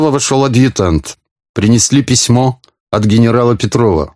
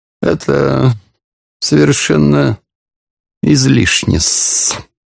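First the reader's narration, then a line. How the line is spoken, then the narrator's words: Purring. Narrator (Russian): промурлыкал Порфирий Петрович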